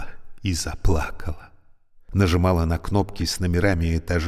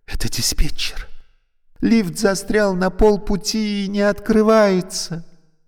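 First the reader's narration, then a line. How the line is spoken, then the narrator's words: Frightened question. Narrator (Russian): Алевтина испуганно спросила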